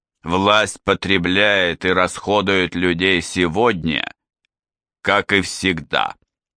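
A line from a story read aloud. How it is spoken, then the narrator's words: Resonant, firm voice. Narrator (Russian): сказал он звучным твердым голосом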